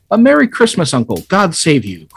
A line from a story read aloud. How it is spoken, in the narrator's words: cried a cheerful voice